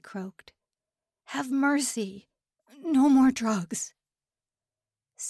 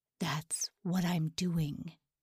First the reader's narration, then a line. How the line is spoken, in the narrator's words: he whispered